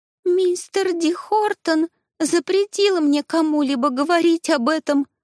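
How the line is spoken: Sobbing girl. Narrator (Russian): всхлипнула девочка

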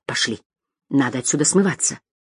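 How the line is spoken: Whisper. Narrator (Russian): прошептала

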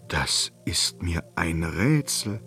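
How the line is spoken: Murmured. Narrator (German): murmelte er

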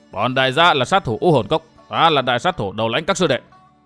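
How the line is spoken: Gruff man, almost shouting. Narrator (Vietnamese): Tên hán tử lùn thấp, béo tròn nói như quát

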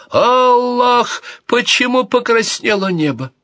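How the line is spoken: Wailing. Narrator (Russian): всплеснув руками, завопил

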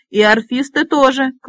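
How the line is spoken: Shout. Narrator (Russian): крикнул Робинтон

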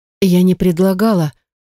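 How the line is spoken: Frightened. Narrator (Russian): испуганно произносит моя подруга

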